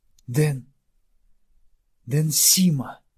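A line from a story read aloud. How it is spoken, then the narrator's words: Barely squeezed out. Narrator (Russian): еле выдавил из себя Веговис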